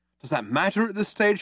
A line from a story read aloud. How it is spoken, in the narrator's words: shouted Arthur